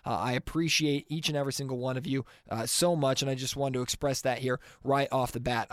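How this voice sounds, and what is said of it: Scratchy, congested voice. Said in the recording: “my voice is a little bit scratchy and I'm still a little bit congested”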